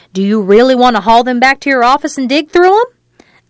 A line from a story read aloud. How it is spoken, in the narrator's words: Annette snarled